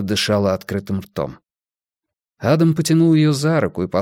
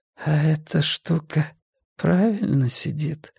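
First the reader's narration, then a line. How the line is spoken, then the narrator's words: Mumbled into neck. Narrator (Russian): промямлила женщина ему в шею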